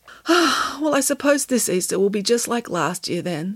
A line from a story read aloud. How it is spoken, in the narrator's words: sighed Samantha